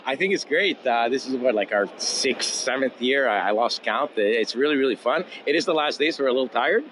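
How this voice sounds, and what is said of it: Slightly hoarse voice. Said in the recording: “I can hear that voice going a little hoarse there.”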